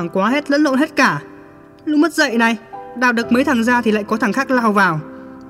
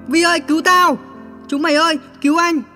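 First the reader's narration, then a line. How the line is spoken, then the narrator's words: Panicked loud shout. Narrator (Vietnamese): Hốt quá hét ầm lên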